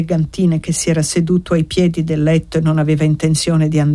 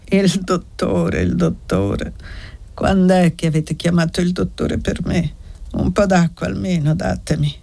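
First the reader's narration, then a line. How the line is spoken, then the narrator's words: Old man muttering. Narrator (Italian): borbottò il vecchio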